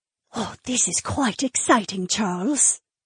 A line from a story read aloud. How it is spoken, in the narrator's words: she whispered